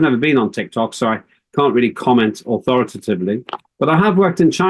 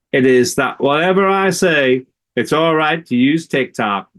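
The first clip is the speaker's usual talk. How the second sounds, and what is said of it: Imitates another person's voice, poorly. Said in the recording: “I know that's not a great accent,”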